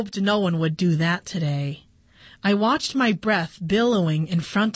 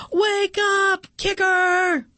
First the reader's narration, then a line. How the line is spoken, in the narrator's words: kids yelling